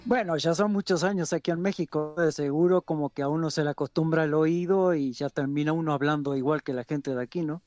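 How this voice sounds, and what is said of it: Mexican Spanish accent. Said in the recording (Spanish): “tenés un acento mexicano que pareces el doctor Chapatín en vez de ser uruguayo”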